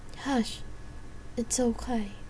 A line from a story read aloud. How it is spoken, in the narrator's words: she murmured